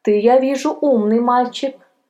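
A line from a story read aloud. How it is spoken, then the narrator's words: Young man laughing. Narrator (Russian): засмеялся молодой человек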